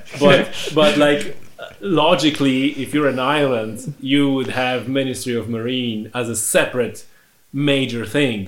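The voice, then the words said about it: Foreign-accented English. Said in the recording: “I'm just a foreigner speaking with funny accent”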